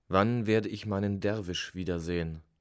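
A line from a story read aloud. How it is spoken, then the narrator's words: Plain. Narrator (German): fragte ich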